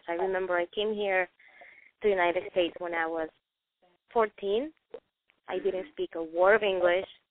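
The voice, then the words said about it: Noticeable non-native English accent. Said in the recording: “my accent, I mean, everybody can hear my accent.”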